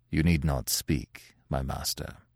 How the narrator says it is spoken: said Pierre, in a manly but sorrowful tone

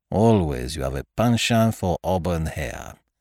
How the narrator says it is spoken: murmured Poirot

